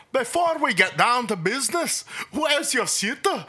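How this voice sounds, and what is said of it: Poorly done Scottish accent. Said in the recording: “I absolutely butchered a Scottish accent”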